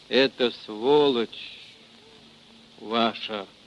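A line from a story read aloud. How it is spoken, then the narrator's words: Gurgling, bloody voice. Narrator (Russian): Глотая кровь, заговорил он булькающим голосом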